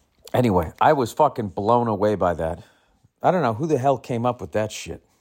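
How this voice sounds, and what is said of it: Usual voice. Nothing is said of it.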